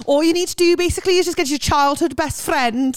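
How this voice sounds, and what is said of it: Scouse accent impression. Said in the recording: “that was a good impression. ... That was Welsh. ... That wasn't. That was a proper good scouse.”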